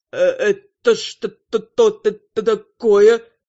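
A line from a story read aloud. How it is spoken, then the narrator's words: Stammering. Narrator (Russian): Начал заикаться первый влетевший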